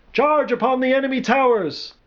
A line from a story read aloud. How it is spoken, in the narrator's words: yelled, sounding every bit like the campaign-hardened general